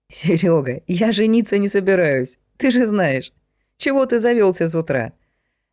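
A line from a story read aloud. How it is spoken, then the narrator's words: Laughing. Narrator (Russian): Рассмеялся Валера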